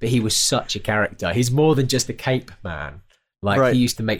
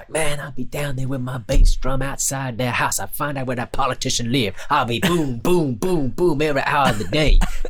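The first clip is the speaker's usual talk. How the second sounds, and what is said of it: Poor imitation of another person's voice. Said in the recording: “my awful Danny Ray impression”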